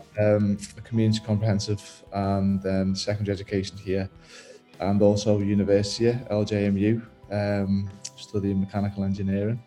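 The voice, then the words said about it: Liverpool accent. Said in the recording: “with that accent ... Unsurprisingly, by the accent, I was brought up and I was schooled in Liverpool.”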